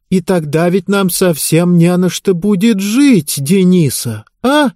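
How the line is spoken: Desperate exclamation. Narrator (Russian): в отчаянии воскликнула мать

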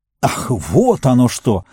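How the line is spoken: Exclamation, messenger. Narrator (Russian): воскликнул посланец

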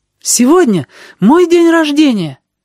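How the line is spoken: Exclaimed. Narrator (Russian): воскликнула леди Щедрость

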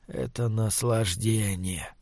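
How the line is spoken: Whisper. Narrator (Russian): прошептал он

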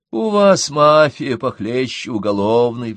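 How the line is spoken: Sighing. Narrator (Russian): вздохнул Бруно

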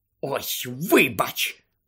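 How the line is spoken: Hissing. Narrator (Ukrainian): прошипіла Герміона

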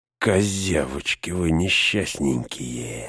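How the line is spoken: Hissing. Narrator (Russian): зашипел Грышнак

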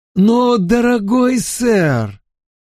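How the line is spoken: Exclaiming. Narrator (Russian): воскликнул мистер Сегундус

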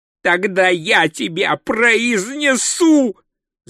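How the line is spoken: Echoing shout. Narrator (Russian): закричал он, и его голос эхом взлетел к вершине башни

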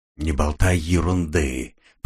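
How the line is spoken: Hissed through teeth. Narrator (Russian): прошипел он сквозь зубы

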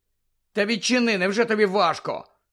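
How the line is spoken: Angry. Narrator (Ukrainian): сердито промовив

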